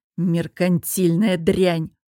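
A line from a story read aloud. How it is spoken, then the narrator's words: Hiss. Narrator (Russian): прошипел объект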